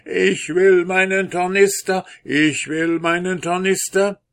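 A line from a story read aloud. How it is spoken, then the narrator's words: Ghostly soldier calling. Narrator (German): fing der Soldat an zu spuken und rief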